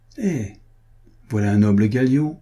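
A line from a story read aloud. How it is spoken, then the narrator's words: Sneering. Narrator (French): dit le baron en ricanant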